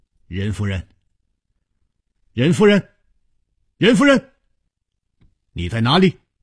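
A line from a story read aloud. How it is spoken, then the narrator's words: Calling out. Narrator (Chinese): 他一面呼唤着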